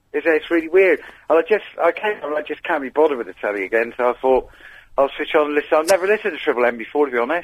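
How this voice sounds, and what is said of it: Mild Cornish accent. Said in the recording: “Your Cornish accent isn't as strong as it normally is.”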